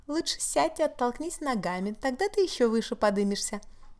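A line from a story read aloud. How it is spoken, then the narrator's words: Innocent little voice. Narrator (Russian): невинным голоском предложила Виола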